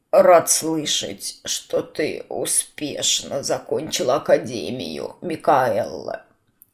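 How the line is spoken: Lazy drawl, smoking. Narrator (Russian): Лениво протянул он, затягиваясь толстой вонючей сигарой

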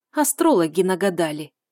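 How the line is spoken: Displeased snort. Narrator (Russian): фыркнула я недовольно

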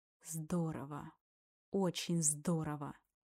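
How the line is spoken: Hiss. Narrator (Russian): Прошипел Тимур

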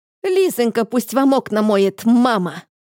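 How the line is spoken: Gleeful bark. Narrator (Russian): рявкнула я с удовольствием

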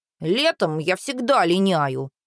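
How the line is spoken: Embarrassed mutter. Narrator (Russian): смущенно пробормотал брат

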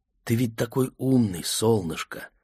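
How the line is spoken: Mother's whisper. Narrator (Russian): шепнул мамин голос

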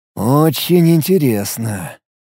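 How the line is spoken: Drawled. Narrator (Russian): протянул Алекс

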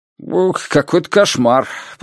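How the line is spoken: Muttered. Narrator (Russian): пробормотал Нильсон

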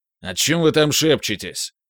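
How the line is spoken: Barked. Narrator (Russian): рявкнул воин

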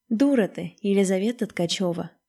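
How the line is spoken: Sighing. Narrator (Russian): вздохнула Лиза

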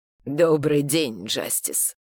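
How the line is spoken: Low hoarse voice. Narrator (Russian): Через его едва видимые движения губ прошел низкий хриплый голос

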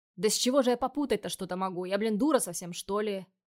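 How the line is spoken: Snapping retort. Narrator (Russian): Огрызнулась я

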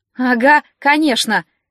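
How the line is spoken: Mother's snort. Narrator (Russian): мама фыркнула

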